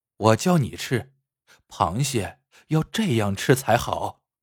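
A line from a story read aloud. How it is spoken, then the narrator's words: Soft and gentle. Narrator (Chinese): 沈少爷轻声细语的说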